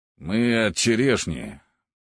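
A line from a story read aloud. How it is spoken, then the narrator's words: Grumble. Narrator (Russian): пробурчал один из парней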